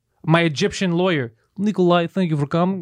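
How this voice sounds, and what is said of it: Put-on Russian accent. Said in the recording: “He has a Russian accent.”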